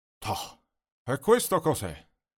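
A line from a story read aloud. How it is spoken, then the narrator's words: Exclaiming. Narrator (Italian): esclama Oreste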